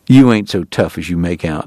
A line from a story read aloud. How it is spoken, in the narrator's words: he said